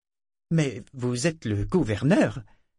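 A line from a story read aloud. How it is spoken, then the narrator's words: Stammering. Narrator (French): bredouilla-t-elle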